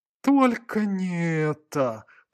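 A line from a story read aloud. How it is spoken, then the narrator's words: Groaned. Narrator (Russian): простонал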